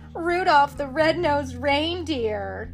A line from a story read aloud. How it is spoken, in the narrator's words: they jeered